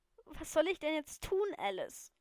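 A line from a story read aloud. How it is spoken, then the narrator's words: Sobbing question. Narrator (German): fragte schluchzend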